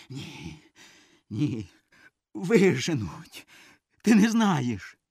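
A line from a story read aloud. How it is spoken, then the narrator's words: Stubborn hoarse wheeze. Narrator (Ukrainian): Льоня якось чудно скидує головою і уперто хрипить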